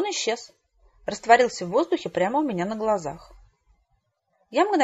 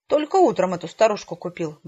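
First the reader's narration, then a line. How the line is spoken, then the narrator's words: Muttering to himself. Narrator (Russian): бормотал водитель, скорее себе под нос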